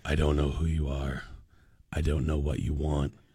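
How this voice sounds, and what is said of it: Sexy Liam Neeson impression. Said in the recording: “in his sexy voice doing the Liam Neeson Taken line”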